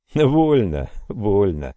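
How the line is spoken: Laughing reply. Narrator (Russian): продолжая смеяться, ответил

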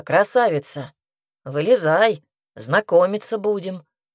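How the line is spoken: Barked shout. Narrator (Russian): гаркнул я

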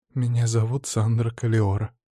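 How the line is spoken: Quiet reply. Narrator (Russian): негромко ответила

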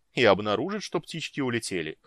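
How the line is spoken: Scoffing snort. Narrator (Russian): хмыкнул Орин

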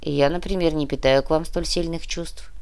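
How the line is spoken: Mercenary's grumble. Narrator (Russian): проворчал наемник

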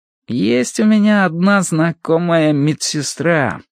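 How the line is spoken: Drawn-out, thoughtful. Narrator (Russian): протянул он задумчиво

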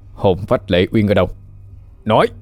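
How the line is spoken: Harsh, stern. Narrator (Vietnamese): Khánh Minh gằn giọng

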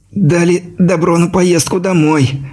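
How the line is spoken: Envious squeak. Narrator (Russian): с завистью пискнул Ляпишев

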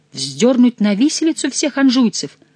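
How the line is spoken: Astonished exclamation. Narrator (Russian): воскликнула Екатерина с тем удивлением, которое испытывают люди незаурядного ума, когда им говорят какую-нибудь чудовищную глупость

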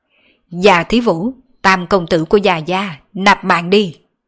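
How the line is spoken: Laughing loudly. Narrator (Vietnamese): cười to nói

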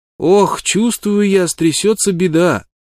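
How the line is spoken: Child's plaintive call. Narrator (Russian): жалобно крикнул вдогонку малыш

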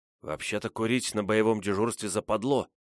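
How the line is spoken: Whispered. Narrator (Russian): шепотом произнес Ванек

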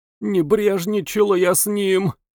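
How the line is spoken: Moaning. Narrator (Russian): стонала

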